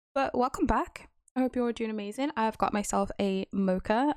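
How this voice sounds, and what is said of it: Weird-sounding, freshly woken voice. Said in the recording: “my voice is going to sound super weird right now because I've been awake for about an hour”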